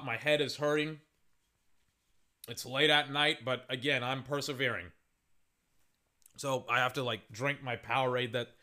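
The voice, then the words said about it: Hoarse, strained voice. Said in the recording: “my voice is shot”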